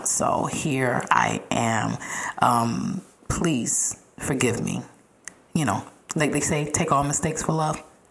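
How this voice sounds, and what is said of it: Slightly raspy voice. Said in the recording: “If you hear me a little raspy today, please overlook it. ... just a little under the weather.”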